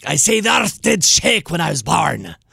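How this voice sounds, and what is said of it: Exaggerated piratey Welsh accent. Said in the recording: “It was a little too piratey, but sometimes I overamp my Welsh accent.”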